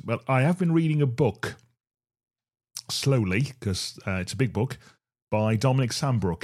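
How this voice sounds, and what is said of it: Voice going, slightly hoarse. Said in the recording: “I'm losing my voice a little bit.”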